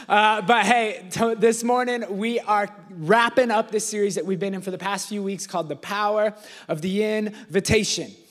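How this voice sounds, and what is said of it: Sick, strained voice. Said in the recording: “If you can't tell by my voice, I'm feeling a little under the weather today ... I can't talk right now”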